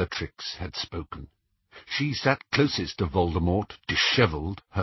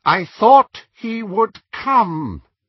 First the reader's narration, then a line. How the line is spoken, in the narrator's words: said Voldemort in his high, clear voice